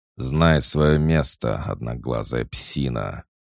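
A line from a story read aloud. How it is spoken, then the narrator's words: Hissing. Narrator (Russian): прошипел наместник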